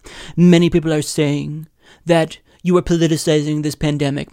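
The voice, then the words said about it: Poor Donald Trump impression. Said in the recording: “My Trump impression is horrible”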